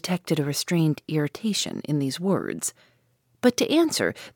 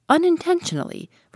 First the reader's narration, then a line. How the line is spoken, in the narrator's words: replied the stranger, raising his voice a little